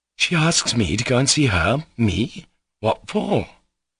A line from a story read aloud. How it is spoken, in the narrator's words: Alyosha muttered in great astonishment